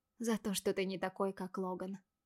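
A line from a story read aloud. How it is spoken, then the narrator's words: Quiet muffled answer. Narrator (Russian): тихо ответила Вики, уткнувшись лицом в ворот моего камзола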